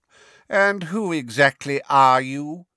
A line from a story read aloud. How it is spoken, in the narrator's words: said Fudge in a bored and lofty voice